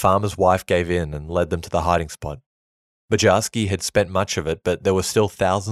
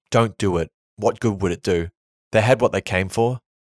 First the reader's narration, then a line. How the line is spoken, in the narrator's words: The mother screamed, and Toivy begged, pleaded with him